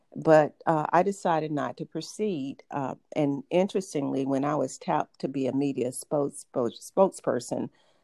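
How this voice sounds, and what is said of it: Southern American accent. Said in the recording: “my Southern accent ... the accent”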